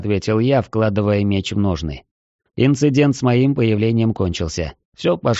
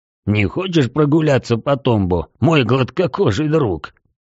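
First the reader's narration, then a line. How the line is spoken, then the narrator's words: Hoarse laugh. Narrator (Russian): хрипло рассмеялся Рокки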